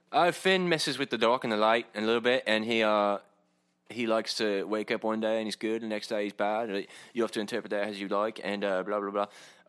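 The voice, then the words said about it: Terrible John Boyega impression. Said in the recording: “terrible John Boyega impression”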